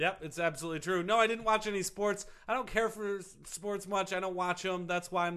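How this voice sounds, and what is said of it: Usual voice. Nothing is said of it.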